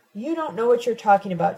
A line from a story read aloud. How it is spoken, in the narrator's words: Tina shouts